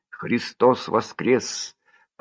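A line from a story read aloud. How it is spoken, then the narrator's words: Church singing. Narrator (Russian): поют во храме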